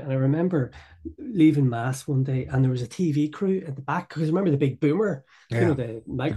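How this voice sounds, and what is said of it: Belfast accent. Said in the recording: “I grew up in Belfast, as you can tell by my accent”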